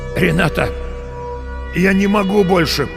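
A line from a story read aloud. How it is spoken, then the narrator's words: Hoarse croak. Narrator (Russian): прохрипел он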